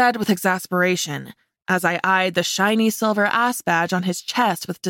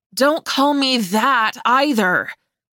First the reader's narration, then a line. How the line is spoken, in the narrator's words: practically snarled